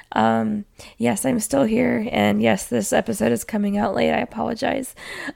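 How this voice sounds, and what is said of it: Sick, rough-sounding voice. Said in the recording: “I sound terrible. ... Yes, I am sick. ... I sound like I just sound bad.”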